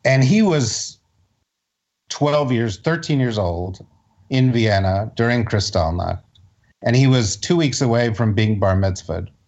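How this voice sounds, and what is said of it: Choked-up, emotional voice. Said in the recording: “I'm getting a little choked up”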